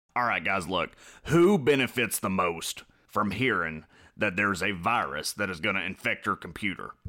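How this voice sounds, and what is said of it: Imitates another person's voice. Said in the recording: “Alex Jones impersonation ... bad Alex Jones impression ... It was good. I liked it.”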